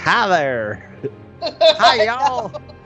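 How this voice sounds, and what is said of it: Crude put-on Southern US accent. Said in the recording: “a northerner, trying to do a southern, deep south accent ... I can only do, like, you know, just the crudest”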